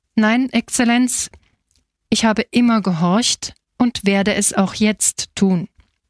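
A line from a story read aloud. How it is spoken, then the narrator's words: Firm voice. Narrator (German): Don Angelo straffte sich und erklärte mit fester Stimme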